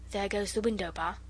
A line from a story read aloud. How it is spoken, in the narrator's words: said the robber, softly